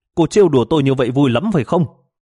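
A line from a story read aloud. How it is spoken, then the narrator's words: Angry shout. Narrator (Vietnamese): Tôi giận dữ hét lên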